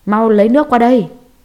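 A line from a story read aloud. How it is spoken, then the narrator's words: Loud frantic shouting. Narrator (Vietnamese): Tiểu Mã kêu là ầm ĩ ... hét lớn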